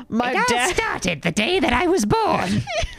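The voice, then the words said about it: Cartoon villain character voice impression. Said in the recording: “It's not bad, but it sounds like a combination of Dr. Doofenshmirtz ... Kolek”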